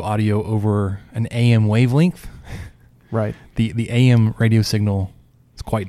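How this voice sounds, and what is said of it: Southern Cajun twang accent. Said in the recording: “my twang ... Remember he's Cajun.”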